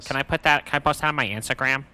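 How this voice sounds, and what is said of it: Imitates another person's voice. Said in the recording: “That's my impression of Russ.”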